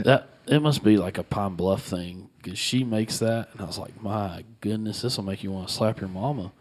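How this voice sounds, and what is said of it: Regional accent slipping out. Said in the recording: “Did y'all hear that accent that come out of his mouth? ... It slips out every now and again.”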